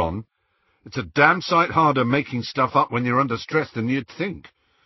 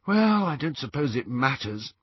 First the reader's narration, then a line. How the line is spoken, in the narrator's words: sighed Hermione